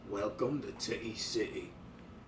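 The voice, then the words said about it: Put-on hardcore British accent. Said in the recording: “hardcore British accent”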